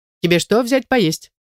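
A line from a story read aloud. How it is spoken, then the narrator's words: Casual everyday question. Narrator (Russian): будничным тоном спрашивает куратор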